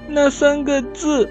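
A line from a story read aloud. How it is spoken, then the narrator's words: Crying child. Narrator (Chinese): 小苹果哭着说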